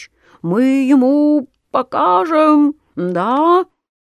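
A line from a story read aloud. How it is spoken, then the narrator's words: Mosquitoes squeaking. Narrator (Russian): комары летят и пищат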